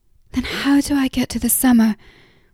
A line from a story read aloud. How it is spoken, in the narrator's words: He sighed